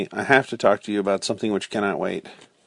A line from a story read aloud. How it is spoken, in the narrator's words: said calmly